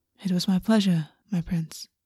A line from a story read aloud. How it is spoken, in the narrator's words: August said quietly